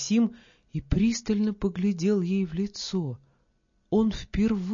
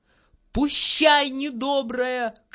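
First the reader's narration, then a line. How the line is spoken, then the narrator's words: Angry shout. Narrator (Russian): крикнула она и сердито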